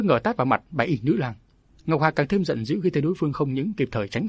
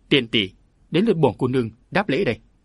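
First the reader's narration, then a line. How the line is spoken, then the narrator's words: Angry shout. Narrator (Vietnamese): Ngọc Hà giận dữ quát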